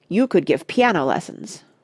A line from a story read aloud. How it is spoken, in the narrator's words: said Randy firmly